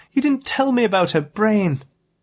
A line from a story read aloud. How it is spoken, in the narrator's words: she cried